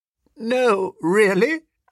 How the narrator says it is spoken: I croaked

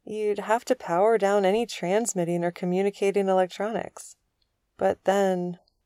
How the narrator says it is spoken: the lieutenant said slowly

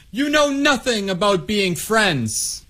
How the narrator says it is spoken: she yelled

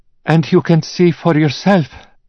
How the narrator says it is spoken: pleaded Anna

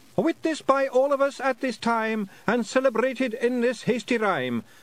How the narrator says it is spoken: not as big as medium-sized Jock, but bigger than wee Jock Jock shouted after them

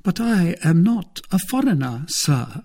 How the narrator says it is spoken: said she, with an accent as pure as ever was heard between Portsmouth and Manchester

